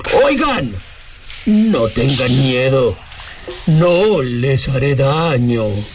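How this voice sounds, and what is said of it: Eerie ghostly voice. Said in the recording (Spanish): “voz de ultratumba”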